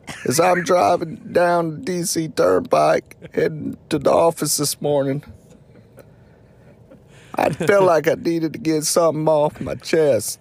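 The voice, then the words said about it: Imitates another person's voice. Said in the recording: “Worst Impression Series, Bill Clinton”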